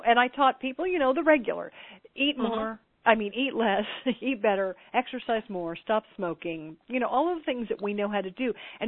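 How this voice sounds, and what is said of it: Native regional accent. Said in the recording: “that's my native accent right there ... Okay, I hear it.”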